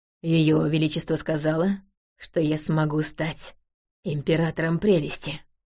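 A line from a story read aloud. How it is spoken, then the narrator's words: Grumbling. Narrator (Russian): пробурчал Захариус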